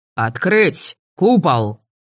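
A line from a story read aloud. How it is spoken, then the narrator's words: Curt bark. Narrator (Russian): Совсем уж лаконично рявкнул Мелисандр в 3 метрах от нас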